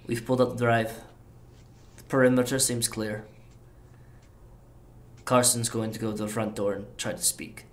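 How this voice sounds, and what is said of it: Slight Russian accent. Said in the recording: “he's got a slight Russian accent”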